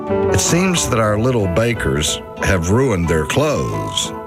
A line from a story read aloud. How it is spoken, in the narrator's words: said Mom